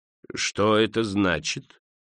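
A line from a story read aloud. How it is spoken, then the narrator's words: Sarcastic and cold. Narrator (Russian): произнес Скрудж язвительно и холодно, как всегда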